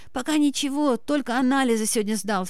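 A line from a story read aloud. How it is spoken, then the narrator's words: Hoarse wheeze between fits. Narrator (Russian): в перерыве между приступами прохрипел Горелов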